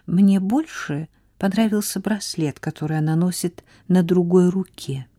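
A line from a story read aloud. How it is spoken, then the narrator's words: Quiet. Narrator (Russian): тихо сказала Сара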